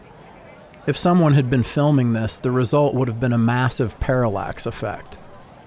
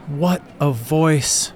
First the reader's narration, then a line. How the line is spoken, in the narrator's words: panted